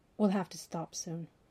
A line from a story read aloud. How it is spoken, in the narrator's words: he said